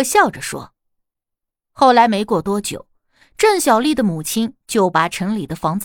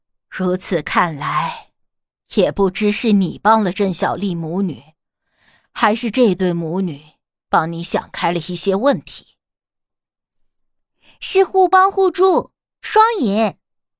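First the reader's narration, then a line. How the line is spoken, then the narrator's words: Laughing exclamation. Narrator (Chinese): 大姑也在旁边笑着感叹道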